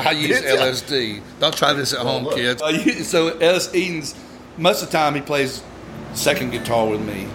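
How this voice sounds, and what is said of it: Southern American accent. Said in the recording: “my southern dialect, it probably sounded like I said LSD.”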